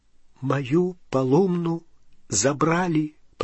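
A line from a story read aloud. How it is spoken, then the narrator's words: Whispered. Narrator (Russian): прошептал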